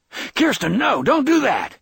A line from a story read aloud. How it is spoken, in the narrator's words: Brad Josephson yelled